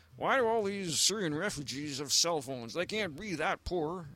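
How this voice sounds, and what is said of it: Put-on southern American accent. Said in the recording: “that's my southern Republican accent.”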